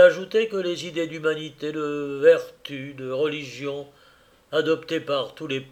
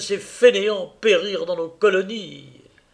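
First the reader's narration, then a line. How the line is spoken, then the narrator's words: Exclaiming. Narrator (French): s'écriait-elle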